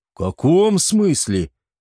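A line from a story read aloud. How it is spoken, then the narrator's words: Indignant exclamation. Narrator (Russian): воскликнул возмущенный Эгиет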